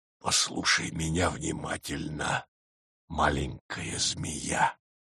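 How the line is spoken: Quiet. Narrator (Russian): тихо произнес

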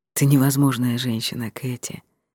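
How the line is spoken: Affectionate. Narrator (Russian): произнес он ласково

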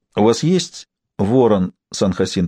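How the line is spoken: Plain question. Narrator (Russian): спросила Сибил

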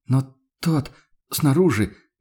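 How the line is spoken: Hesitant. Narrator (Russian): начала Мария Дишер неуверенно

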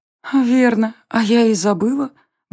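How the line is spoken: Blissful whisper. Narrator (Russian): блаженно прошептала Варя

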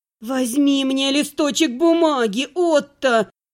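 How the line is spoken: Hissed through teeth. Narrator (Russian): процедила я

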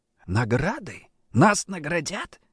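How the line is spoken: Barely audible whisper. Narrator (Russian): чуть слышно прошептал Андрей

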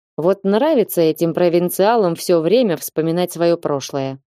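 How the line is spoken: Grumbling mutter. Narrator (Russian): пробурчал он

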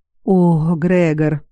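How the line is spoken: Drawn-out, strange tone. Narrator (Russian): протянула она таким странным тоном

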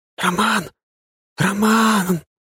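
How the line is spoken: Loud whispered call. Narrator (Russian): позвала Ангелина громким шепотом

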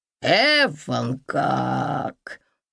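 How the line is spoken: Drawling woman. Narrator (Russian): протянула женщина

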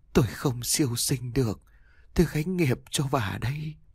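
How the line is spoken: Eerie hissing, wind-blended. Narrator (Vietnamese): Cái bóng người khẽ rít lên từng hồi, giọng nói của ông hòa theo tiếng gió

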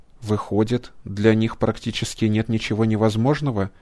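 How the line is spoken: Plain. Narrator (Russian): спросил доктор

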